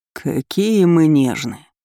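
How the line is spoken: Scoffing. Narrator (Russian): хмыкнул капитан

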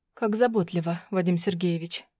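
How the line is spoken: Whispered. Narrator (Russian): Прошептала я

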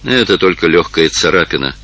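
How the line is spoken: Calm reply. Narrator (Russian): спокойно ответил маркиз

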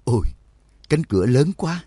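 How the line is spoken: Sighing exclamation. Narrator (Vietnamese): Đường Mẫn thở dài thốt lên

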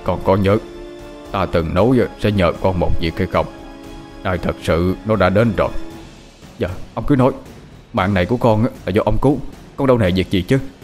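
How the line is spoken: Very grave. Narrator (Vietnamese): Thầy Long ... nói với giọng rất nghiêm trọng

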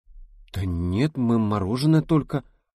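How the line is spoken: Flustered babbling. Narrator (Russian): залепетала Рита, теряясь

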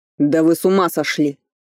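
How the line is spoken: Angry statement. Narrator (Russian): констатировал Ричард, зло

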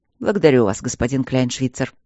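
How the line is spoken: Cold. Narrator (Russian): холодно сказал Майло

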